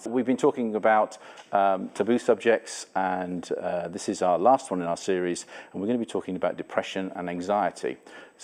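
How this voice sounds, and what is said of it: English accent. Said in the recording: “I have a different accent. I'm not from Canada originally. I'm an English person.”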